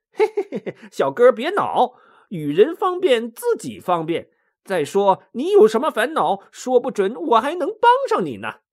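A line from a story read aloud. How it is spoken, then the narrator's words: Grinning, cheerful. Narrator (Chinese): 孙悟空笑嘻嘻的说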